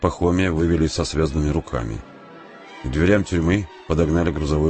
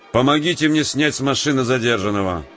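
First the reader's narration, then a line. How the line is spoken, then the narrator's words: Shout. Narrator (Russian): прокричал он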